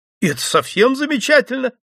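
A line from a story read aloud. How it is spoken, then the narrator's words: Exclaimed. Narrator (Russian): воскликнул Глеб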